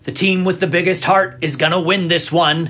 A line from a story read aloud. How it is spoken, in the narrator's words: he shouted